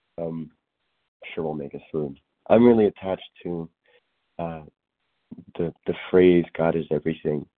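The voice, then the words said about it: Messed-up sounding voice. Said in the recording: “my voice is a little messed up.”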